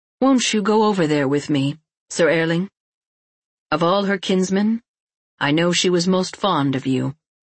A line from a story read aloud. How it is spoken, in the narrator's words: he heard his own voice saying evenly and calmly